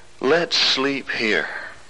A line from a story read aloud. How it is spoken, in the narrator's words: The old man said